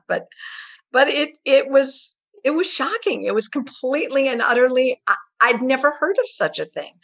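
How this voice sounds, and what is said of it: Choked-up, emotional voice. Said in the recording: “I don't usually get choked up about this, but for some reason I am”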